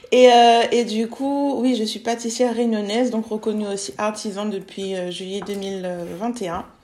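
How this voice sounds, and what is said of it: Réunion Island French accent. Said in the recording (French): “je suis réunionnaise de base... ça s'entend un l'accent”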